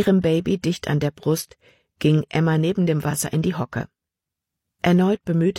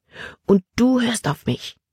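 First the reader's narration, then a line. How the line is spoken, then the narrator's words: Angry whisper. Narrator (German): flüsterte sie ärgerlich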